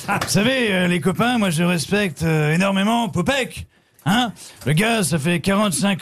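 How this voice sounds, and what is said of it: Jean-Marie Bigard impression. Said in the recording (French): “Marc-Antoine Lebray ... Jean-Marie Bigard voulait vous dire quelque chose”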